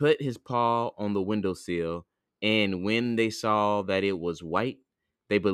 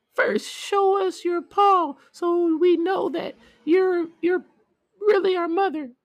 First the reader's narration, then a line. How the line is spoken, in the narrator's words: The kids cried out